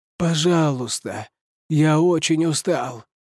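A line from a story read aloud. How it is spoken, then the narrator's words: Hoarse weary repetition. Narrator (Russian): хрипло повторил Паул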